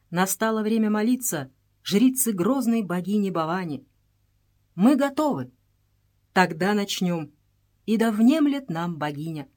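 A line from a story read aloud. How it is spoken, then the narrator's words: Sharp commanding voice. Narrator (Russian): Она говорит резким, повелительным голосом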